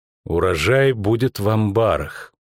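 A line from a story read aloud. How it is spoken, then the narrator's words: Slow. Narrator (Russian): медленно проговорила Йеннифер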